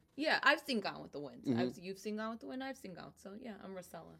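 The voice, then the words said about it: Strong Brooklyn accent. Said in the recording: “She has such a great accent. ... I'm from Brooklyn.”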